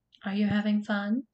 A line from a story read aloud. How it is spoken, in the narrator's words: she asked him